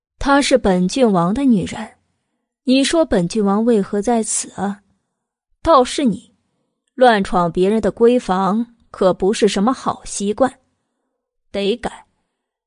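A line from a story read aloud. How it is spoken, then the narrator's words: Slow, suggestive. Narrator (Chinese): 白梨华刻意的暧昧一笑，慢条斯理的道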